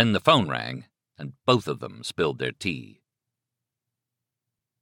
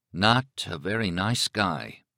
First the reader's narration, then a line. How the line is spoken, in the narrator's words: he muttered